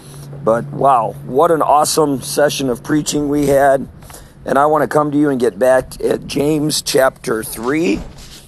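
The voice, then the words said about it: Hoarse voice. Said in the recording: “My voice is a little hoarse”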